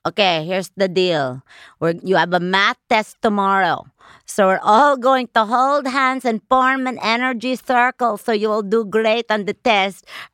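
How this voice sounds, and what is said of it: Imitates another person's accented voice. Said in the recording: “That accent is unbelievable. ... That's daddy.”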